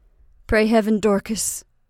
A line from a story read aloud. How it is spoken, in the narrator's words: said Reuben in a broken voice